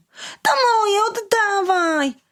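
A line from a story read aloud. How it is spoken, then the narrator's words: Child shouting. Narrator (Polish): bawiący się obok chłopiec krzyknął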